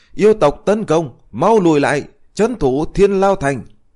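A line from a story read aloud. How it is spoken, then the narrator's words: Startled old man shouting. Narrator (Vietnamese): lão thành chủ Thiên Lao Thành lập tức giật mình hét lớn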